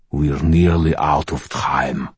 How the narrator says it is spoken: Magog growled

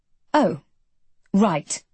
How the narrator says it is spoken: I say icily

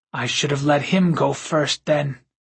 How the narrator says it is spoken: Sven said weakly

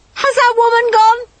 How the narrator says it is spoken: I shouted

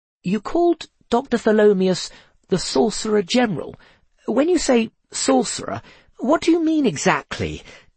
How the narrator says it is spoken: he asked hesitantly

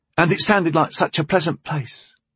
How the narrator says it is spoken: he sighed

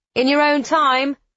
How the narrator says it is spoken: Alex cheerfully calls

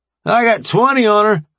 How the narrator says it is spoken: a voice shouted from the weight racks

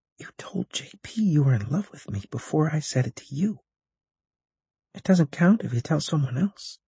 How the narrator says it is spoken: I put my mouth next to her ear and whispered

